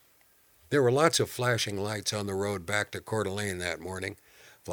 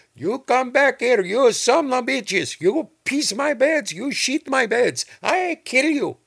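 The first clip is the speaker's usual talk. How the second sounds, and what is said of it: Shouted line in a foreign accent. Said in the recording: “shouting in some foreign accent”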